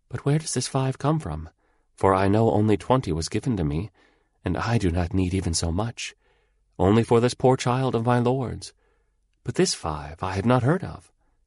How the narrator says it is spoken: she said in her soft voice

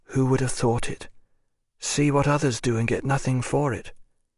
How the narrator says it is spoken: said Maslova in a low voice

